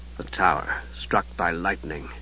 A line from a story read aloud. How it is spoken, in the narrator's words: he murmured